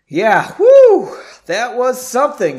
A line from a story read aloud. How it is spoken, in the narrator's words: exclaimed